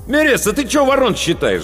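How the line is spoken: Angry shout. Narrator (Russian): злобно окрикнул меня Паводников

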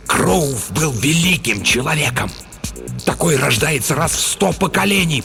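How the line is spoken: Hissing. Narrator (Russian): прошипел Стоун

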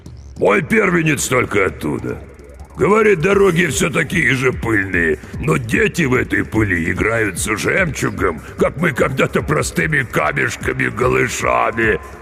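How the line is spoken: Deafening laughter. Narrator (Russian): Толстяк оглушительно захохотал

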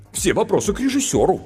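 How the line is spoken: Offended. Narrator (Russian): обиженно сказал сценарист

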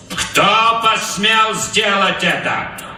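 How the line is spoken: Loud question. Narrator (Russian): громко спросил Капрал

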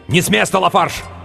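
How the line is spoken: Group shouting. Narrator (Russian): Они кричали

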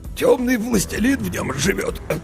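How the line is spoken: Hoarse. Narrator (Russian): хрипло сообщил градоправитель

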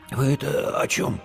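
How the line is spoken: Hoarse, strained voice. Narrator (Russian): прохрипел Димка севшим голосом

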